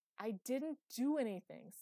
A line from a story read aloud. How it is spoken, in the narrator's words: said Phoebe through gritted teeth